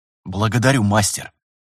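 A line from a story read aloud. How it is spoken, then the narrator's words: Repeated with agitation. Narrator (Russian): повторил Виталий взволнованно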